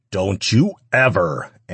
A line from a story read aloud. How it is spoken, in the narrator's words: Ash growled